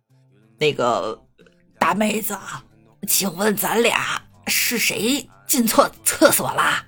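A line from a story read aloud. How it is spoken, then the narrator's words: Hoarse voice. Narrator (Chinese): 一个沙哑的声音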